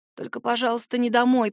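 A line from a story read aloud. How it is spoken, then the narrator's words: Hoarse rasp. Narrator (Russian): прохрипела я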